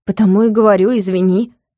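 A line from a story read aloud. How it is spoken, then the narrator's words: Slightly irritated repetition. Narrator (Russian): Немного раздраженно повторила Юля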